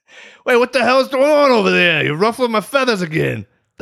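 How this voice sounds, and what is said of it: Goodfeathers cartoon character voice. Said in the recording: “do your Goodfeathers impression”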